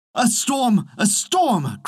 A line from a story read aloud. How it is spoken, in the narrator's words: cried the peasant